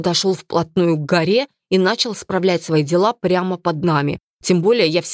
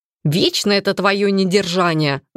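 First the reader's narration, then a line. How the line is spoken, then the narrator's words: Grumbling. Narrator (Russian): заворчал второй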